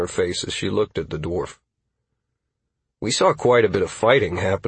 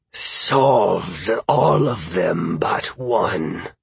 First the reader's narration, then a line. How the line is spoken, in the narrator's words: Helix hissed, clenching his claws menacingly